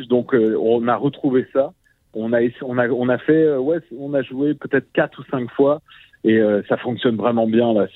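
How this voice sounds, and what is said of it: French accent from France. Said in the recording (French): “ça s'entend à notre accent. On vient pas d'Abitibi, mais on est un petit peu français.”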